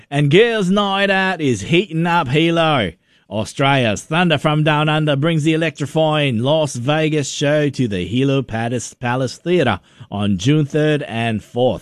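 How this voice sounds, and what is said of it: Put-on Australian accent. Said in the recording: “I can stop that silly accent now. ... Once in a while, I just like to bust out the old Australian accent, mate.”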